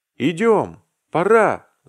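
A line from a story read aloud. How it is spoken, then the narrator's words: Excited shout. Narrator (Russian): закричал Вася, увлекшись последним движением Аркадия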